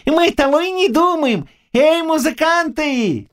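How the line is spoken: Shouted. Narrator (Russian): крикнул он

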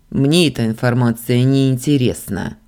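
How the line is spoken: Cold. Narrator (Russian): холодно ответил принц

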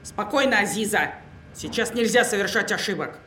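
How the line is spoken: Angry. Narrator (Russian): зло продолжила

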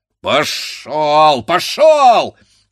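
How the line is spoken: Blacksmith shouting. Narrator (Russian): кричал кузнец

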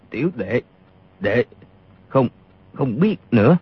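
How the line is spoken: Trembling voice. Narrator (Vietnamese): Y run rẩy nói

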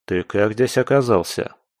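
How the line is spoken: Plain. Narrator (Russian): спросил я

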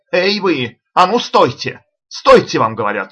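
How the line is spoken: Shouted. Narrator (Russian): крикнул Джемс

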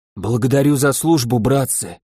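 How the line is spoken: Hoarse. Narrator (Russian): говорю хрипло

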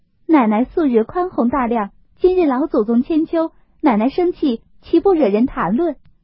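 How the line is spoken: Cheerfully coaxing. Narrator (Chinese): 宝琴、湘云二人也都笑劝

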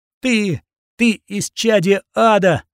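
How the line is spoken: Screaming. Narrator (Russian): закричала Катрина

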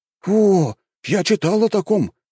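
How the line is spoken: Surprised exclamation. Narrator (Russian): удивленно воскликнул один из них

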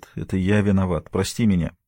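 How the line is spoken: Embarrassed mumble. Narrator (Russian): Марк смущенно бормочет

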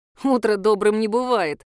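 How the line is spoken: Smirking snort. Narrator (Russian): хмыкнул Славик

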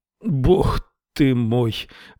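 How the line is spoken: Groan. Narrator (Russian): простонал он

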